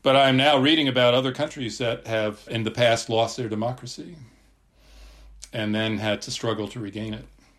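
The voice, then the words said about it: American accent. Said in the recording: “you can tell by my voice, I'm obviously an American”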